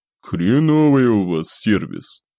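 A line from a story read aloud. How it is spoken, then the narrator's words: Grumbling. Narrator (Russian): проворчал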